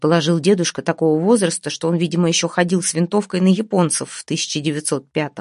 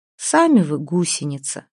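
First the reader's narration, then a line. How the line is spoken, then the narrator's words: Sighing. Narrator (Russian): вздохнула Вася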